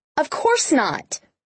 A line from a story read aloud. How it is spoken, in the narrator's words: she snapped